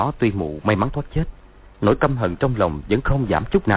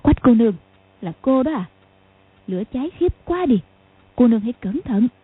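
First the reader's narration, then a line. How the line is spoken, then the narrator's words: Smiling, gentle old woman. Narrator (Vietnamese): mụ bèn mỉm cười nhẹ nhàng nói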